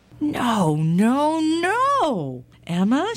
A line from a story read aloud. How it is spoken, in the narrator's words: cried